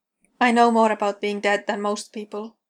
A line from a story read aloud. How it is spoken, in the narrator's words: Dean says flatly